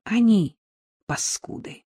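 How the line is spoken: Sighing. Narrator (Russian): вздохнула

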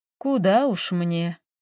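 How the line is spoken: Sad old woman. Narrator (Russian): грустно проговорила бабушка

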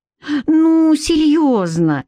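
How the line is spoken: Curious pleading. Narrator (Russian): взмолилась любопытная Литка

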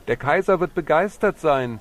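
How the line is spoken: Calling out. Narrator (German): Er rief noch

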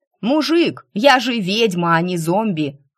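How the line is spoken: Shouting after someone. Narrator (Russian): крикнула я вслед

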